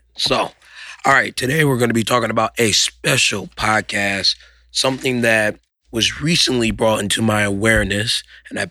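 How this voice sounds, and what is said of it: Strained, fading hoarse voice. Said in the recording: “Apologize for my voice. Looks like I've been talking too much, so I'm losing it.”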